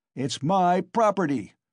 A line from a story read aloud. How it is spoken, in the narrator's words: shouted Mikolka